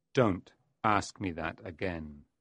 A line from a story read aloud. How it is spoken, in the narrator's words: Mephistopheles said menacingly